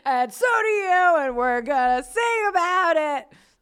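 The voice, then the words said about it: Imitates a band's singing voice. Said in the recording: “That's my Mountain Goats impression.”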